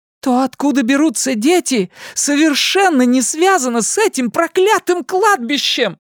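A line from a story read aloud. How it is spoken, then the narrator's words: Outburst. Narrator (Russian): выкрикнула Рэйчел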